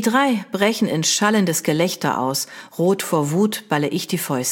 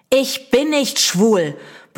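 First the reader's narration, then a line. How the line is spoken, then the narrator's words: Very loud shout. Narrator (German): brülle ich so laut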